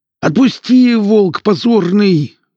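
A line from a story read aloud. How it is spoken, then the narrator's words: Howl of pain. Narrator (Russian): взвыл двойник, которому заломили руку к небу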